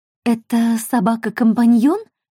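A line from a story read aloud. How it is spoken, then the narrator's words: Uncertain question. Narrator (Russian): неуверенно спросила Мод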